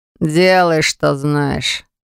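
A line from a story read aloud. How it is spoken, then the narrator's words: Displeased. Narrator (Russian): сказал недовольным тоном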